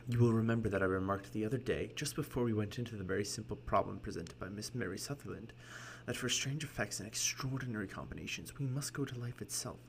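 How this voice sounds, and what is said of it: Put-on English accent slipping American. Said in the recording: “I kind of like oscillate between like an American and an English accent”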